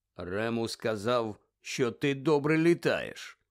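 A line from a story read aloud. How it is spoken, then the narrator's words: Low voice. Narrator (Ukrainian): низьким голосом промовив Кінгслі Шеклбот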